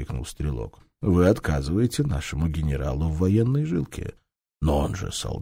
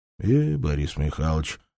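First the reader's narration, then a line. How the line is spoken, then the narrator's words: Sigh. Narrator (Russian): вздохнул Агафонов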